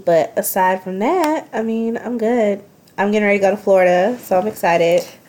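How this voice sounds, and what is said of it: Slightly nasal voice from cold. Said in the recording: “I have a little bit of a cold, so I'm a little nasally”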